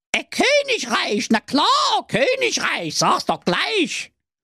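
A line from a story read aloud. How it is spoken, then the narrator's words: Fairy calling out. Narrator (German): rief die Fee Brigitte wie bitte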